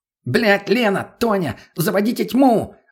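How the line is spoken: Shouting. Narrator (Russian): закричал мутный

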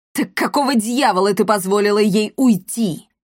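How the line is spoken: Furious bark. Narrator (Russian): злобно рявкнул император

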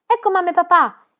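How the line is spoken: Exclaimed, trembling with joy. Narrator (Italian): esclamò Tommy e la sua voce tremò di gioia

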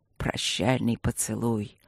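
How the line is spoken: Listless mutter. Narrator (Russian): пробормотал Люк вяло

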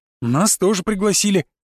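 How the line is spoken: Friend declaring happily. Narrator (Russian): радостно заявил друг

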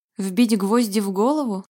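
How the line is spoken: Skeptical snort. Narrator (Russian): хмыкнул Вальтер

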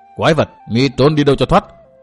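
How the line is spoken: Loud yell. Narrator (Vietnamese): Tư Mã Minh hét to

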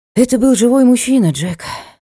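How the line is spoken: Sighing. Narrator (Russian): вздохнула я

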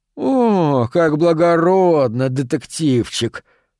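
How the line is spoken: Disgusted drawl. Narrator (Russian): С отвращением протянул Харпер

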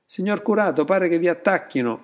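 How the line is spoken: Henchman's shout. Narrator (Italian): gridò il bravo Napolì

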